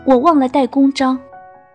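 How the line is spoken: Regretful shout. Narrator (Chinese): 懊悔不迭的大叫

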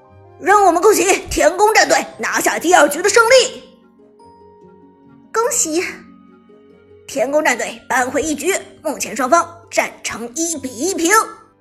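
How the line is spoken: Commentators shouting in unison. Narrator (Chinese): 解说们齐声喊道

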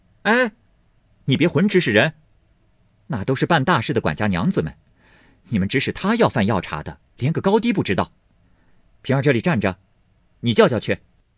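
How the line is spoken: Loud. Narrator (Chinese): 探春高声说道

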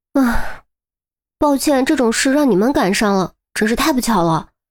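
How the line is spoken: Sighing. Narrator (Chinese): 韩淼叹息一声

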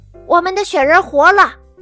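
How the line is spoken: Monster roaring. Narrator (Chinese): 大脚怪龙吼叫着

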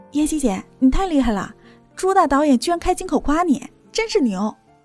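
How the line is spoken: Cheerful smiling speech. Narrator (Chinese): 猫夏……笑着说道

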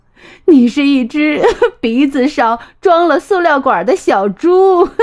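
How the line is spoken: Laughing loudly. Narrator (Chinese): 袋鼠大笑着说

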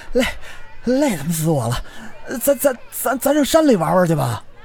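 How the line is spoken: Out of breath, panting. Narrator (Chinese): 赵庆气喘吁吁地说

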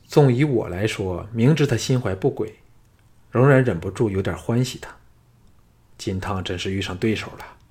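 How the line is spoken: Sighing. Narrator (Chinese): 项少龙叹道

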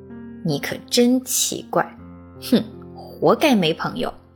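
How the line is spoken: Muttering. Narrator (Chinese): 狐狸……嘟囔道

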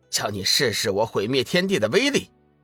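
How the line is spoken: Angry roar. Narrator (Chinese): 随着他的一声怒喝

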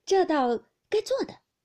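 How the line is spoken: Many voices laughing. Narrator (Chinese): 众人听了都笑道

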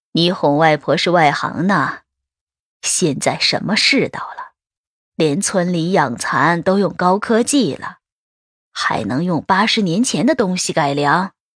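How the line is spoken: Chuckling. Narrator (Chinese): 嘿嘿笑了两声，说着

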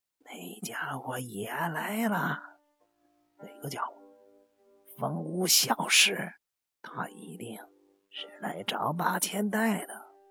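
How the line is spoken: Uneasy lowered voice. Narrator (Chinese): 仙石直纪突然间打了个冷颤， 神情变得十分不安的 压低声音说道

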